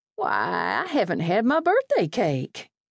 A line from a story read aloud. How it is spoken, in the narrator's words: she said as brightly as she could